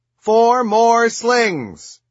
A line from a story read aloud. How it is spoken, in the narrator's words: I exclaim